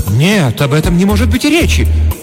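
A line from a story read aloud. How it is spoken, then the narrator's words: Grandiose exclamation. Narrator (Russian): патетически воскликнула хозяйка дома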